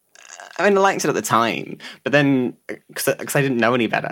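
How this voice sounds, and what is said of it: Unusual accent, not very clear speech. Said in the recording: “You do have an unusual accent though... It's just my voice... I'm not very clear at talking... people find it hard to understand me”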